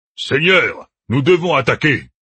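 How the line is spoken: Thunderous roar. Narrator (French): rugit une voix tonitruante

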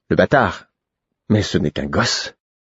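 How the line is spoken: Old king sighing. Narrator (French): Le vieux roi soupira

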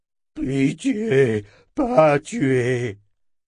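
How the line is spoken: Moaned. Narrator (French): gémit-elle

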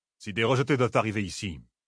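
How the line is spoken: Perfectly even tone. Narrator (French): dit-il d'un ton parfaitement égal

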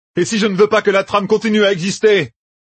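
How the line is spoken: Shouted. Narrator (French): cria-t-il

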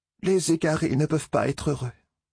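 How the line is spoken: Sighing. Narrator (French): soupira-t-elle

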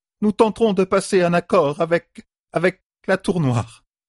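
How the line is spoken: Trembling voice. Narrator (French): dit d'une voix tremblante

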